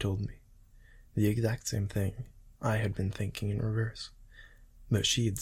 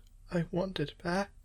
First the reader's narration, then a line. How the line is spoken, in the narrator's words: cried harder